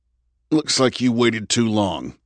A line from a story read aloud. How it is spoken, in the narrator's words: Andrew grunted